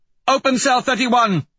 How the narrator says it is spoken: she shouts to the techs

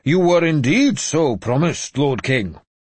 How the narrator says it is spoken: he said loudly

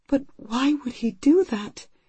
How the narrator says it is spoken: her voice breaking, she asks

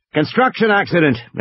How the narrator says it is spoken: Ed shouted

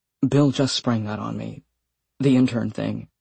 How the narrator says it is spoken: He whispered

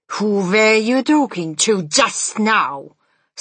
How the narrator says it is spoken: snapped the Grand High Witch

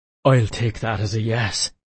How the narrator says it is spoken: he moaned

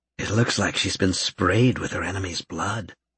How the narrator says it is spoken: Karen murmured

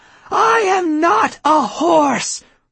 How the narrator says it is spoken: Pauline screamed

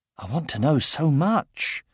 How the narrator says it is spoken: whispered Aragorn

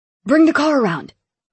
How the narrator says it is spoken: Lincoln barked to Blake

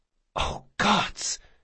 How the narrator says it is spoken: she whispered

